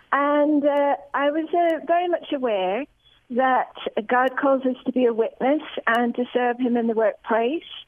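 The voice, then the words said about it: British accent. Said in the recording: “As you can probably tell from my accent, I'm from Britain.”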